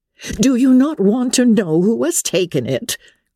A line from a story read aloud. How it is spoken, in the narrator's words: cried his wife impatiently